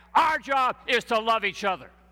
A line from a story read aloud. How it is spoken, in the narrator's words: the boys scream back